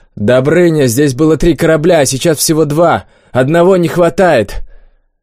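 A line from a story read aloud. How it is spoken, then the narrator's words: Shout. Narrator (Russian): Олег крикнул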